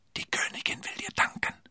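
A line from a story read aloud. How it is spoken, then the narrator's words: Whispered. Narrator (German): flüsterte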